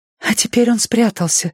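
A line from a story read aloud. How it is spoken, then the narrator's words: Breathy exhale. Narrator (Russian): выдохнула женщина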